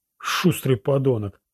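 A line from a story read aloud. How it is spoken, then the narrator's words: Wheezing. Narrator (Russian): просипел Роланд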